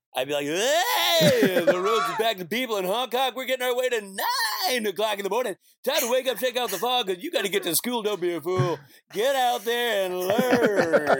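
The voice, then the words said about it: Radio DJ voice. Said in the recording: “I do my morning DJ voice”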